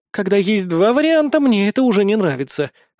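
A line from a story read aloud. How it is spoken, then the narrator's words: Smirking snort. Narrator (Russian): хмыкнула суккубка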